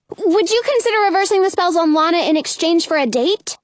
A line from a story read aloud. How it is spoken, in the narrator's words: blurt out